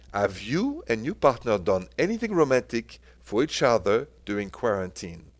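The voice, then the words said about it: French accent. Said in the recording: “you know my French accent”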